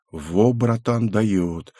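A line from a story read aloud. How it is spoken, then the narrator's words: Muttering. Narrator (Russian): пробормотал Рэй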